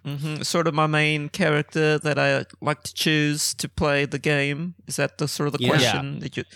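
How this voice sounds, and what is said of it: Hybrid British and Texan accent. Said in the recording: “sounded a little Southern... a little bit of a hybrid accent of the British and the Texan”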